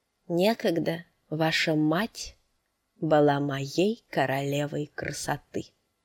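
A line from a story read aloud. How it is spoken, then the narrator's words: Quiet male voice. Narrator (Russian): негромко проговорил мужчина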